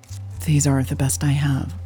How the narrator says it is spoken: she said quietly

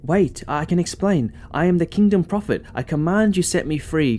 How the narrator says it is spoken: cried Piram

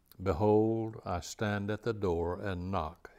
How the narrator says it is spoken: he says

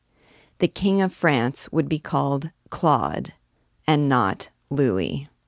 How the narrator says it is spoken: replied the archdeacon, pronouncing his words slowly, like a man who is reflecting

